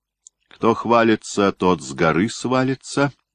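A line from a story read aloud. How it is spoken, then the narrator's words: Mocking. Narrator (Russian): только и сказал, наконец, он, насмешливо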